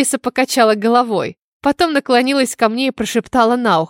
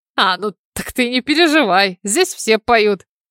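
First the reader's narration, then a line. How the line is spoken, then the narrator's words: Snorting. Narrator (Russian): Тимоти хмыкнул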